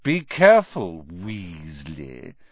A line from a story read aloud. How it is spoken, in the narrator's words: sneered Malfoy